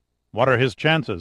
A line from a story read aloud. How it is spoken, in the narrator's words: asked Sandecker